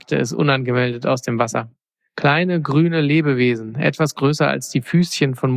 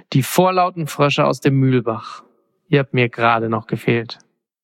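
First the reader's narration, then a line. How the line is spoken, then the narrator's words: Sigh. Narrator (German): seufzte Orest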